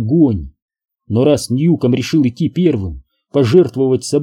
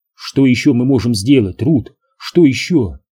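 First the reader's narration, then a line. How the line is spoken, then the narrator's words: Plain. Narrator (Russian): спросил Кэм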